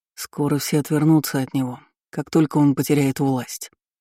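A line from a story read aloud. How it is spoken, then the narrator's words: Said quietly. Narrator (Russian): негромко сказал Фернан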